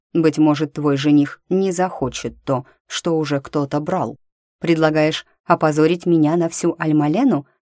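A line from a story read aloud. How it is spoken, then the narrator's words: Plain question. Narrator (Russian): спросила Амедея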